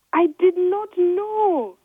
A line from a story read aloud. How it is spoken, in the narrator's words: she shouted